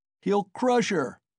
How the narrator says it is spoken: was shouted round him

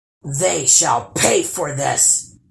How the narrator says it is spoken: roared the troll

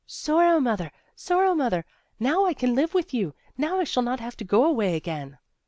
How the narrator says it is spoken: Resli cried out in her delight again and again

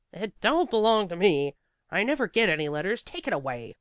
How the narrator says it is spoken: said sharply

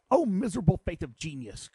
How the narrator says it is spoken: cried he

